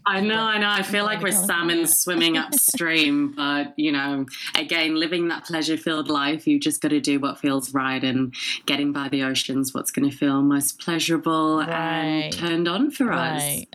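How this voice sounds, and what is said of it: Blended Australian English accent. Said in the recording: “it was an Australian accent ... we had a bit of a blend.”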